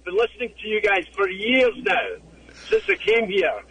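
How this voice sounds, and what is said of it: Scottish accent. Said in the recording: “I think he might be Scottish ... Scottish accent ... It sounds a bit put on to me”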